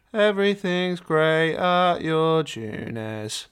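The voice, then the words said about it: Sung impression of a game character. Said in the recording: “a little song for you... That was my impression of Nanako... You sounded exactly like her”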